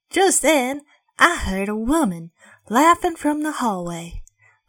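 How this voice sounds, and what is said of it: Put-on Southern American accent. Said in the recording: “I can't do accents well ... I channeled my inner southerner that doesn't exist”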